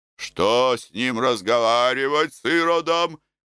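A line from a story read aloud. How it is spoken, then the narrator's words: Soldier shouting. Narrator (Russian): кричал солдат Артем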